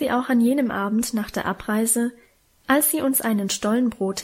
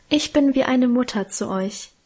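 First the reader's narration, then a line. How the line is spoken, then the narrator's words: Emotional sigh. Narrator (German): seufzte gefühlvoll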